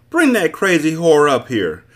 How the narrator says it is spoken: a stout woman yelled from a second-story window

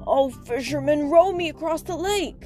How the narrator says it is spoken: the shepherd begged

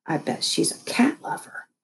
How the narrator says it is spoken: I whispered into Thumper's ear

